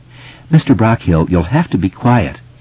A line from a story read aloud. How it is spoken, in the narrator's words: she said kindly enough